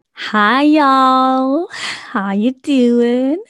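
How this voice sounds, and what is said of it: Put-on American accent. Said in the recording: “excuse the American accent. I've been watching Girlfriends on Netflix and I think it's rubbing off on me”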